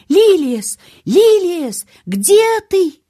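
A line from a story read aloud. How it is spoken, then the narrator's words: Shouting. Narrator (Russian): мистера Крейвена, он закричал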